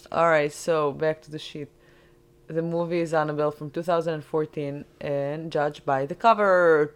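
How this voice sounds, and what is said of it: Non-native English accent. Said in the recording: “your pronunciation of words ... Are you making fun of my accent?”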